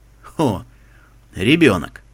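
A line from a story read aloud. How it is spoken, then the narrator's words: Amused snort. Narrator (Russian): жеребец хмыкнул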